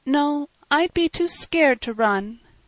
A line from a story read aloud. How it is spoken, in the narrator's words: Emil admitted mournfully